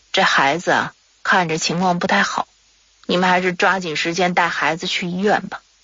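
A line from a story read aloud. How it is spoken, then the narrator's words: Sighing, unsure. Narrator (Chinese): 拉日措呀，他可不像刚来的时候那么自信了啊，摇着头叹着气跟马奶奶说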